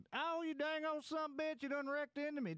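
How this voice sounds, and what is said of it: Put-on Southern accent. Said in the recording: “I like to talk my southern accent”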